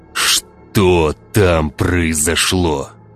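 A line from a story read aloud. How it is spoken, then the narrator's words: Growl. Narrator (Russian): прорычал Владимир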